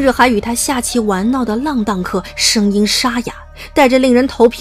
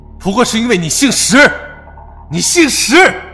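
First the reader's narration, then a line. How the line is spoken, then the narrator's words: Hoarse desperate shout. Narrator (Chinese): 一人声嘶力竭喊道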